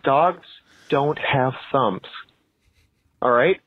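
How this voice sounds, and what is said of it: Speaking very slowly, condescending. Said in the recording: “going to say this very slowly”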